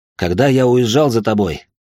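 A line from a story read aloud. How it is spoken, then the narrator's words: With a snort. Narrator (Russian): хмыкнул он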